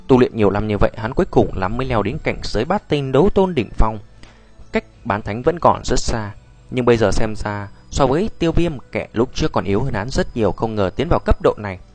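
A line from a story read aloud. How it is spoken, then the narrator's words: Dazed muttering. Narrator (Vietnamese): Hắc Kình dại ra lẩm bẩm nói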